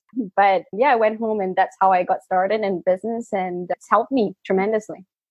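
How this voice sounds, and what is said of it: Mixed British-Malaysian accent. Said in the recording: “a bit of an awkward accent because I don't know, British, Malaysian, even now my accent is all confused”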